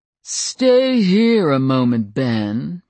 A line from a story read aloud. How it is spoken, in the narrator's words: Ben said with an exaggeration of the drawl that Adam's voice still held from a childhood spent in the Deep South